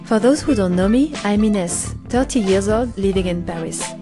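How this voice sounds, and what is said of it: French accent. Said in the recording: “you don't understand my accent. By the way, excuse my French one.”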